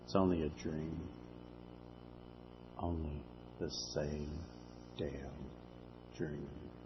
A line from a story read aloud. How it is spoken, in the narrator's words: Jack whispers